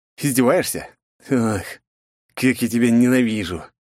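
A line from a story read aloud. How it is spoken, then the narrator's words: Resigned sigh. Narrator (Russian): обреченно вздохнув, произнес я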